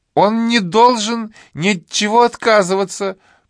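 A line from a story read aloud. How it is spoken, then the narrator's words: Shrill shout over noise. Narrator (Russian): пронзительно закричала миссис Тертон, перекрывая шум в зале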